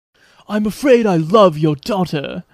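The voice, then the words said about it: Bad English accent, Keanu Reeves. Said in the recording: “the Keanu English accent is just an abomination ... It's not good ... it's pretty terrible”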